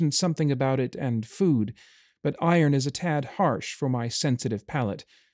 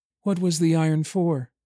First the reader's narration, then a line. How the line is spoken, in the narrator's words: she asked, though her voice held more sadness than interest